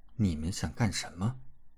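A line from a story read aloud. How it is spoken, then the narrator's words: Cold. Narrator (Chinese): 冷冷道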